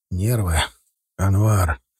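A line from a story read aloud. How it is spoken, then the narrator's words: Tired address. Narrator (Russian): Устало обратился он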